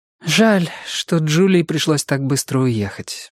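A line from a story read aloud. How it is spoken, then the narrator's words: Sighing. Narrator (Russian): вздохнула Кэндалл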